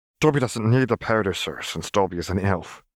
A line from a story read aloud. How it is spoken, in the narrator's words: he said, nervously